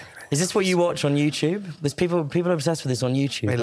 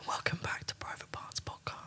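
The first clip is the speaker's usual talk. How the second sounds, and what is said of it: Soft whispery ASMR voice. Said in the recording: “Just do some ASMR ... perfect ASMR voice”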